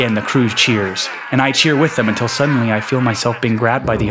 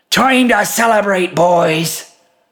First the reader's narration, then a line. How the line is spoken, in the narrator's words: shouts the captain